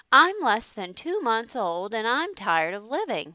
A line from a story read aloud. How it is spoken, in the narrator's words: he said